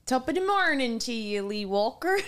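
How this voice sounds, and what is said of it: Weak put-on Irish accent. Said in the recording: “Doesn't she do an Irish accent? ... It's gotten better. ... Almost sounds like Michigan or Minnesota.”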